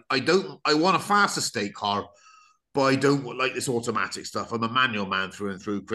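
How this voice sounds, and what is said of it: Put-on West Country accent. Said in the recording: “because he's from the West Country ... I will stop the accent now”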